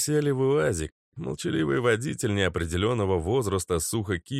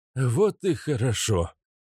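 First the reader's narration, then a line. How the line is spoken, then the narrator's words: Relieved exhale. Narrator (Russian): облегченно выдохнул биохимик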